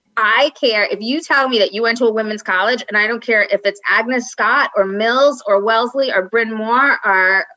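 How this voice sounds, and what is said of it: Long Island accent. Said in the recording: “Did you hear my Long Island accent? ... Oh, yeah, I love it.”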